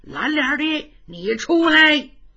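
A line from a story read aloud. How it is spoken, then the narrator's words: Furious shouting. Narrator (Chinese): 花公吉可气坏了，叫喊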